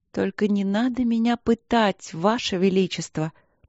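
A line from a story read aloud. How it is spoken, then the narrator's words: Deliberately languid whisper. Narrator (Russian): прошептала Полина нарочито томно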